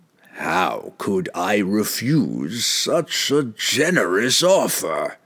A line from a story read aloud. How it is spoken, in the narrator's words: the demon rasped in its horrible, unearthly voice